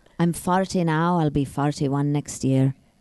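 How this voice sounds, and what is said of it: Put-on Irish accent. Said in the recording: “That's my Irish accent.”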